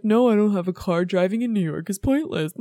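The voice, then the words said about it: Imitates another person's voice. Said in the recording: “my impression of Woody Allen. My voice isn't as high as it should be.”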